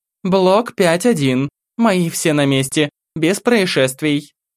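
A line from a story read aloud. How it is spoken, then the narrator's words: Clear, crisp voice. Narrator (Russian): Анастасия Викторовна четким голосом произнесла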